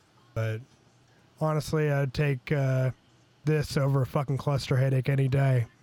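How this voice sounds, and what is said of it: Hoarse, rough sore-throat voice. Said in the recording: “I have a sore throat and shitty voice”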